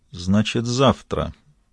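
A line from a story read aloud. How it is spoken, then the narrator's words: Muttered. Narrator (Russian): пробормотала Кэрол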